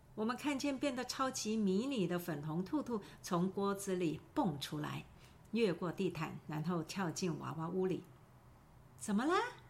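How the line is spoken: Plain. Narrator (Chinese): 我说

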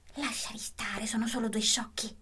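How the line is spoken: Whispered. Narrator (Italian): Julian bisbigliò a Paul

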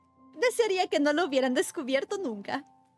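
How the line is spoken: Exclaimed. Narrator (Spanish): exclamó

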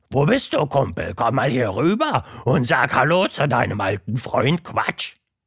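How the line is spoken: Roar. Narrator (German): brüllte

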